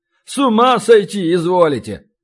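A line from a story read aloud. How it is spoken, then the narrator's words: Snorting scoff. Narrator (Russian): хмыкнул продавец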